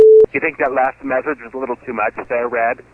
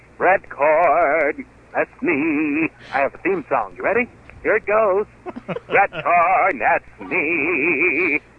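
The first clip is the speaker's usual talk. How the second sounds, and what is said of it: Campy effeminate character voice. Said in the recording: “I sound like a homosexual ... in touch with his feminine side”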